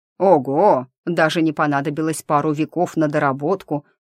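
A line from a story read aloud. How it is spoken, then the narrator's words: Through gritted teeth. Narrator (Russian): процедило начальство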